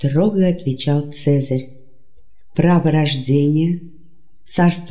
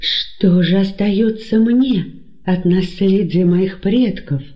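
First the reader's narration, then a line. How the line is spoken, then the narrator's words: Desperate exclamation. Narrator (Russian): в порыве отчаяния воскликнул Антигон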